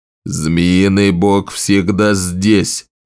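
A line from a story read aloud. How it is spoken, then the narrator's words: Growl. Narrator (Russian): рыкнул Скорбь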